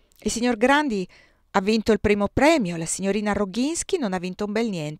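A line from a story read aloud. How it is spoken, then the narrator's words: Exclaimed. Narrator (Italian): esclamò Maurice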